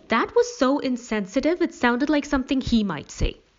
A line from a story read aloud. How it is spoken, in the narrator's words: Allie exclaimed